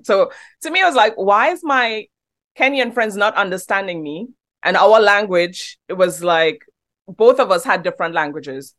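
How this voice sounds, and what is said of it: Trinidadian accent. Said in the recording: “When I first came here from Trinidad ... they don't understand my accent ... You have a great accent. It sounds British.”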